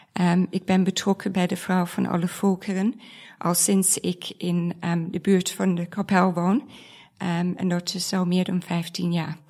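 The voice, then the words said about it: Foreign accent in Dutch. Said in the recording (Dutch): “Ik kom oorspronkelijk uit het buitenland, vandaar mijn accent.”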